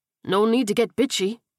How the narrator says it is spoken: Ortega growled

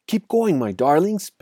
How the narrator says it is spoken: panted Mr

